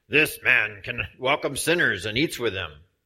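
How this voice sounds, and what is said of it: Dastardly muttering character voice. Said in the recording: “That was my dastardly impersonation.”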